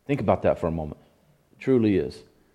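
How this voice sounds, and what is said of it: Emotional, choked-up voice. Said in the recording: “I'm sorry, I get emotional about this.”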